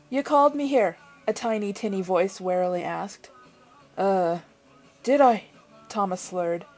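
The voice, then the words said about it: Bad put-on Irish accent. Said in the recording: “a horde of Irish people going, "What the hell did you do to our language? Our accent, that's not it at all." See? It's terrible, isn't it?”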